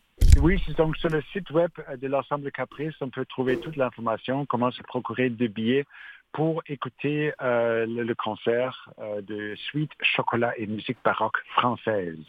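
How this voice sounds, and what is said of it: Speaks French with a noticeable accent. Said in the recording (French): “J'aime bien quand vous le dites comme ça, avec votre accent.”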